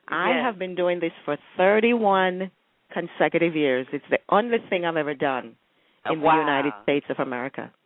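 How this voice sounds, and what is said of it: Jamaican accent. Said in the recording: “we hear your beautiful accent. We know that you're from Jamaica.”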